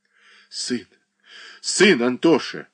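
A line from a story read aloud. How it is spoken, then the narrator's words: Sobbing reply. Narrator (Russian): всхлипывая, ответила Марья Дмитриевна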